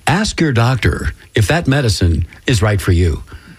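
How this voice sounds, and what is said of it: Announcer-style radio voice. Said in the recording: “do it in my best radio voice”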